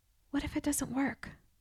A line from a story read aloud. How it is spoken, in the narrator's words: I whispered